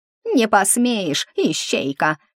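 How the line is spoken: Ghostly shriek. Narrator (Russian): взвизгнул призрак

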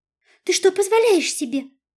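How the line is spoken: Rapid babbling. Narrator (Russian): залепетала я Наташиной скороговоркой

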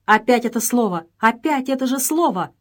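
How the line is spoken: Exclamation. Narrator (Russian): воскликнула Джелла

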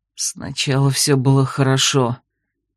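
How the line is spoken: Grated through teeth. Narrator (Russian): проскрипел сквозь зубы ведьмак

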